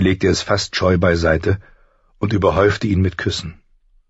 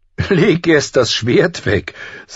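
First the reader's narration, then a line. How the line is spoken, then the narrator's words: Laughing. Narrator (German): sagte John lachend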